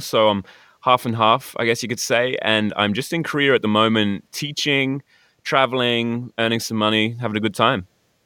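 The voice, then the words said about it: British-Australian accent. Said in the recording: “I'm sort of British Australian.”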